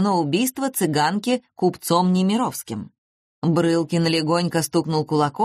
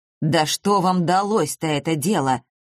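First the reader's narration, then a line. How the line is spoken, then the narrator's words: Menacing tone. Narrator (Russian): грозно проговорил он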